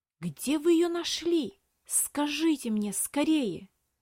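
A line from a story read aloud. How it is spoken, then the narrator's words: Restrained whisper, boy. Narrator (Russian): С трудом сдерживая, прошептал мальчик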